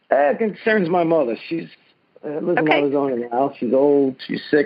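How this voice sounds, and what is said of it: Native New York Brooklyn accent. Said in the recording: “You can tell from my accent... you sound like a native New Yorker”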